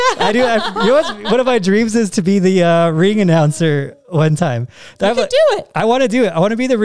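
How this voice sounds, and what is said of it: Usual voice. Nothing is said of it.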